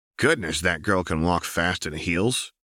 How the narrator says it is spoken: Othniel grunted to Harry

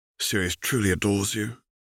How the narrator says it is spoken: murmured Nova

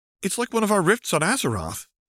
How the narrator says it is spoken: she exclaimed

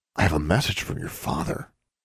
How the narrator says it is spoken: he whispered in her ear

